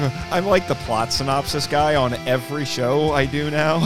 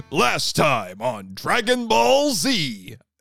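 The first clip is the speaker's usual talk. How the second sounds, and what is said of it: Plot synopsis announcer voice. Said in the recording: “the perfect plot synopsis announcer voice”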